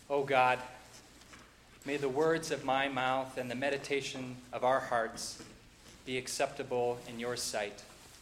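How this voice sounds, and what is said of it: Slight Minnesota accent. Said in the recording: “You got a little bit of my Minnesota accent there.”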